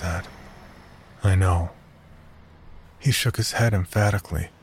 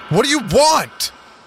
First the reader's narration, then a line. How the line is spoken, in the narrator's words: I shouted